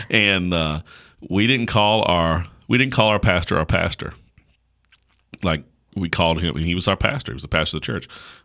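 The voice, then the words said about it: Southern country accent. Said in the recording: “I grew up pretty country, as you can tell by my amazing accent.”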